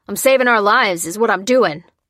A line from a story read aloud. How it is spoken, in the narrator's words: the man shouted back